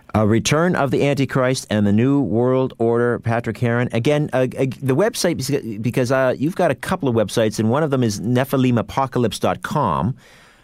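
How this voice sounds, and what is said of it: Canadian accent. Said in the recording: “your nice Canadian accent”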